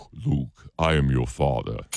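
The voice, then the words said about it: Darth Vader villain voice. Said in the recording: “your Darth Vader voice”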